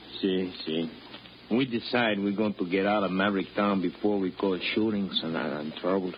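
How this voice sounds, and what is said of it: Foreign accent, broken English. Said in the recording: “Now you're actually talking like a foreigner.”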